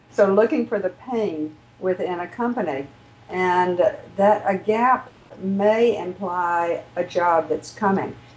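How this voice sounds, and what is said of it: Southern accent with drawn-out vowels. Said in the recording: “My southern accent can put more vowels in there than typically needs to.”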